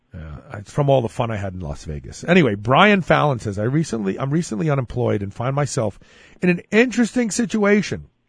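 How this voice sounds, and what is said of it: Slightly hoarse, fading voice. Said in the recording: “Can you tell my voice? I'm losing my voice a little bit.”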